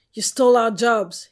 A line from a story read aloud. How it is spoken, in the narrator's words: he shouted